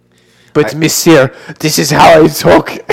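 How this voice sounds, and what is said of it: Mock French accent. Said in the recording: “knock that fucking accent off”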